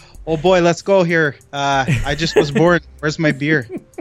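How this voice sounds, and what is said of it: Put-on Canadian accent. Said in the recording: “How's my accent? ... there's certain accents that you can do”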